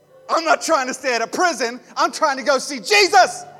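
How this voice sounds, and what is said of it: Shouting. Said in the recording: “I'm sorry I'm shouting”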